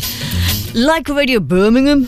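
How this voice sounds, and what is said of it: Deliberately poor put-on Birmingham accent. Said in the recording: “I've got to do the accent though ... a Birmingham accent is a bit more deeper, more very into like boo, like a zoo ... it sounds like everything is going down, down. I'm terrible.”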